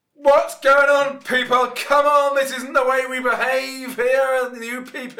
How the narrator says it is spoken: a shout

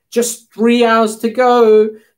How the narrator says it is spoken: shouted Auntie

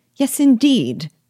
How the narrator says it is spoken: cried Mrs

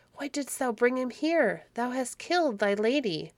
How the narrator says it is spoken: she cried

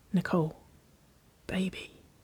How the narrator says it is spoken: she whispered

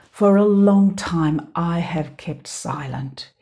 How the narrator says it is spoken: he said

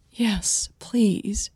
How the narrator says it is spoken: Millie said quietly

